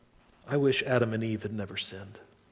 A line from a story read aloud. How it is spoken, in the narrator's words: he said so genuinely, just kind of sighed, and he said